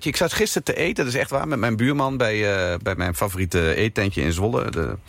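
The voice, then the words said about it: Overijssel regional Dutch accent. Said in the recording (Dutch): “een beetje dat Oosterse, dat Overijsselse accent... Ja, dat hoor je niet heel veel op televisie”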